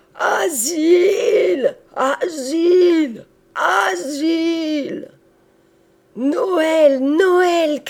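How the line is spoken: Crowd shouting. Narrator (French): criait le peuple

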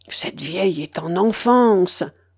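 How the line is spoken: Hushed. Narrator (French): dit tout bas de Griller

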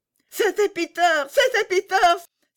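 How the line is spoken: Joyful exclamation. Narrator (French): s'écria Gerda dans sa joie

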